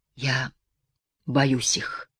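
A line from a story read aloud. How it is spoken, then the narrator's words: Whispered. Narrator (Russian): шепотом добавил он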